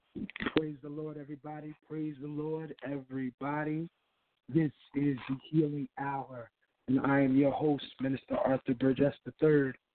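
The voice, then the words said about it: Slightly hoarse voice. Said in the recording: “Don't mind my voice. I'm a little hoarse”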